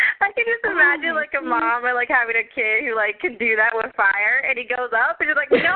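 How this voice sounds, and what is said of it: Usual voice. Nothing is said of it.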